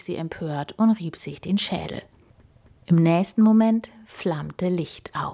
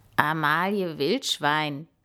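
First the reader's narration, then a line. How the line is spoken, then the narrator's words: Croaked. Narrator (German): krächzte er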